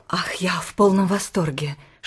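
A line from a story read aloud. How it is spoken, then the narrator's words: Whisper. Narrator (Russian): шепнула ему мисс Морроу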